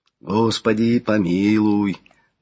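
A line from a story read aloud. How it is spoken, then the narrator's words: Swelling choir, prayerful exhale. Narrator (Russian): Выдохнул единственным молитвенным вздохом, набирающий силу звучания хор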